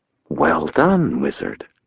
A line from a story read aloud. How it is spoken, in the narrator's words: she murmured